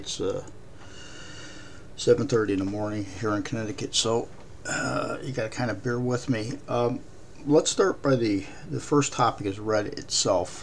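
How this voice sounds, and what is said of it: Raspy, slightly rough voice. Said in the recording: “My voice is a little raspy.”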